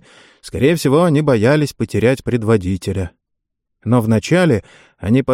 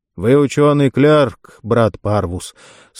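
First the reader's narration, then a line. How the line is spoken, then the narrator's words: Calm, barely restrained tension. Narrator (Russian): сказал он спокойно, хотя ноздри его побелели, волосы были мокры от пота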